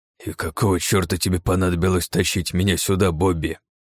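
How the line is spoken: Grumbling. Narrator (Russian): проворчал Джонсон

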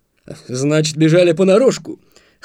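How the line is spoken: Wry snort. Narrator (Russian): хмыкнул лейтенант

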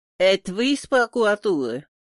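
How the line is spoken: Burred r's. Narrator (Russian): Он картавил

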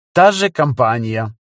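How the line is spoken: Dry remark. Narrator (Russian): сухо заметила она

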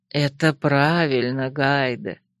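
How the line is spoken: Spirit, warm smiling. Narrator (Russian): ласково улыбнулся дух

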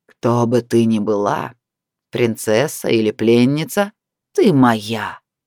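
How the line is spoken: Growling voice. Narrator (Russian): Раздался рычащий голос

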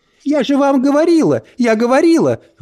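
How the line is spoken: Shrieking. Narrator (Russian): взвизгнула Брит-Мари

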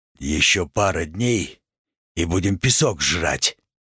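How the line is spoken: Grumbled. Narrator (Russian): Напоследок буркнул

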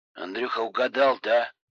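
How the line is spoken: Grumbling. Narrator (Russian): ворчал Коля

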